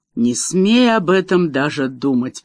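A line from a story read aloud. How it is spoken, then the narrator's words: Grumbling. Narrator (Russian): проворчала герцогиня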